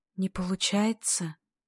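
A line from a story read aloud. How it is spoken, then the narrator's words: Quiet question. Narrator (Russian): тихо спрашивает Вера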